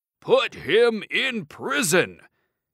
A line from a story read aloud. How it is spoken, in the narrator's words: shouted the emperor